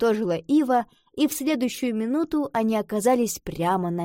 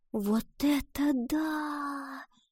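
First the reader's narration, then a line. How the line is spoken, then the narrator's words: Whisper. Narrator (Russian): прошептала Гретхен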